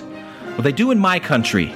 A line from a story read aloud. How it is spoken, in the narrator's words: I snapped